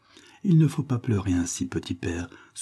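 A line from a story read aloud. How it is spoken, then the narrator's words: Sighing. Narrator (French): soupira William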